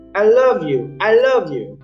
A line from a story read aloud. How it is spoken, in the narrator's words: The little boy shouted